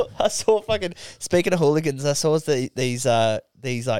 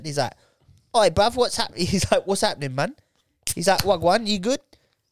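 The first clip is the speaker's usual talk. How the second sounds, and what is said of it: Put-on Jamaican English accent. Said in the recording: “they're the Jamaican English, so they've got that really cool accent.”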